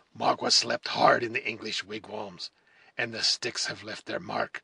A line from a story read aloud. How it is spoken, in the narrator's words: returned the savage, with a hollow laugh, which did not conceal the fierce temper which nearly choked him